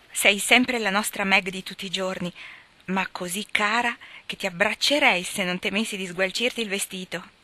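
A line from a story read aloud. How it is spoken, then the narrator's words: Satisfied exclamation. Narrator (Italian): esclamò Amy, contemplandola soddisfatta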